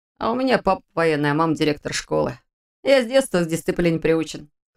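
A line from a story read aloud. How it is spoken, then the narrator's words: Short chuckle. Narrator (Russian): хохотнул Витя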